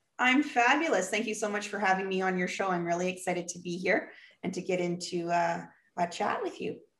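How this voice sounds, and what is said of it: Canadian accent. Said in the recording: “I noticed the Canadian accent.”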